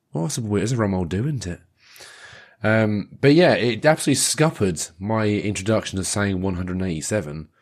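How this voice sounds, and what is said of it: Worn-out, failing voice. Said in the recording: “my voice is a bit knackered. Turns out that my voice seems to have just disappeared.”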